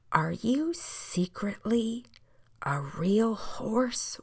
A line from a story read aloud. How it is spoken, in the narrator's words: whispered the boy